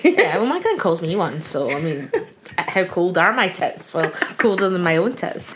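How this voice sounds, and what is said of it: Glaswegian Scottish accent. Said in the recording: “I've got a Glaswegian accent”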